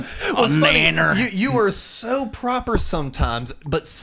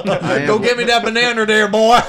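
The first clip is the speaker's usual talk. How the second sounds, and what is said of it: Put-on Southern accent. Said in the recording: “some of your isms come off so southern”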